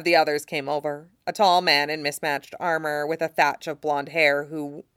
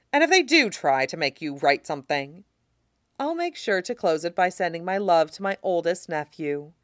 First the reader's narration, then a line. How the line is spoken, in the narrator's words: Tyrion said dryly